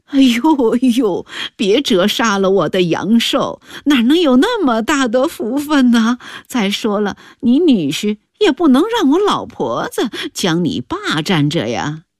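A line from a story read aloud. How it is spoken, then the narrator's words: Laughing. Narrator (Chinese): 韩刘氏笑道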